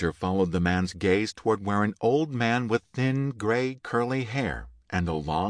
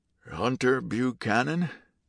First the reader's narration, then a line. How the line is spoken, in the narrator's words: the man called raspily